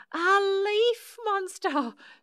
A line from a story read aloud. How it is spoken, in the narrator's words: shrieked Susan and Shirley